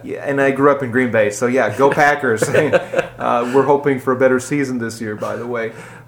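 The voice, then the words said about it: Wisconsin accent. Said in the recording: “I had a Wisconsin accent. You might even be hearing some of the words right now, the Wisconsin E's that I carry with me.”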